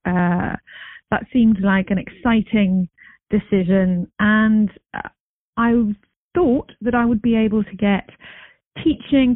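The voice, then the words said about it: English accent. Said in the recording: “as you might be able to tell from my accent, I'm not exactly from round here... I used to be a science teacher in England”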